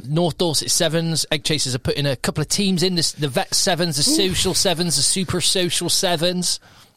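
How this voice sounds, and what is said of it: Put-on Bristolian accent. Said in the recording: “Don't know why I'm doing the Bristolian accent, ... It's the accent of rugby.”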